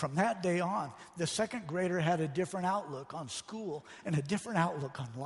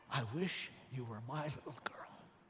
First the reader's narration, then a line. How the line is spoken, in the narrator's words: The teacher whispered